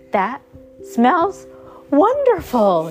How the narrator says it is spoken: exclaimed

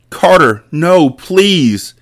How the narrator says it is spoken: she yelled as she fought him

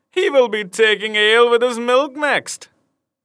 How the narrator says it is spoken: another cried

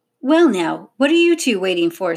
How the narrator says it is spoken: snapped Miss Gladstone

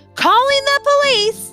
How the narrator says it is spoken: Norma was yelling now

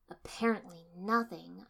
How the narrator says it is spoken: I said bitterly

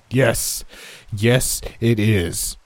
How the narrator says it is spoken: he shouted

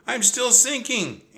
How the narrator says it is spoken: Annie wailed

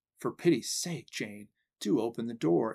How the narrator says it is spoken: entreated one of the frightened girls in a low and tremulous voice

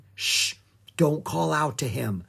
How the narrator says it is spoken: Jack whispered

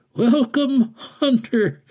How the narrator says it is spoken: the strange man said and chuckled

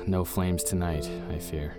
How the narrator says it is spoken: Bailey said with a heavy sigh

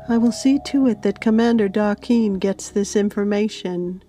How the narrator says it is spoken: called out

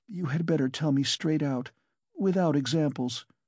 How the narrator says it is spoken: she begged, still more timidly and scarcely audible

